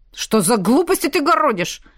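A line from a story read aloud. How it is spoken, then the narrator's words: Barking. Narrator (Russian): рявкнул Ратмир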